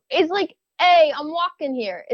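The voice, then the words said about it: Weak attempt at Brooklyn accent. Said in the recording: “Give me your best Brooklyn accent ... I'll give you a mulligan. Go practice your Brooklyn accent”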